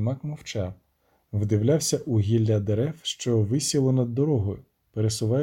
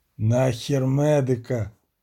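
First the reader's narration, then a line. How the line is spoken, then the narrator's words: Groaning. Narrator (Ukrainian): простогнав відьмак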